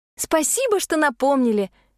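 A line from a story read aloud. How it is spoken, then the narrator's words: Feigned cheerful exclamation. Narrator (Russian): воскликнула я нарочито радостно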